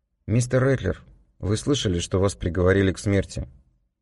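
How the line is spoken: Calm. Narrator (Russian): Спокойно начал я

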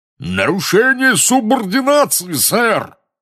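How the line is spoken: Roaring burly wizard. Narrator (Russian): взревел дородный красноносый волшебник

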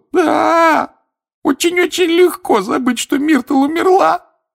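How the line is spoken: Sobbing. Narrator (Russian): рыдала плакса Миртл

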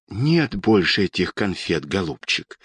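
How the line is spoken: Quiet speech. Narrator (Russian): тихо сказала Анна Петровна

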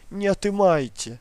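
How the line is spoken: Woman screaming. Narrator (Russian): закричала она

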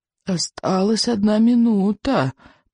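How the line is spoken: Old man's whisper. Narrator (Russian): прошептал старый сморчок

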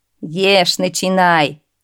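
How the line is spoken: Men roaring with laughter. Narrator (Russian): расхохотались сеньоры

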